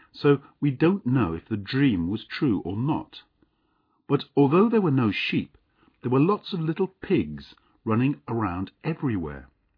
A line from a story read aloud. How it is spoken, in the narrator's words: said the bachelor calmly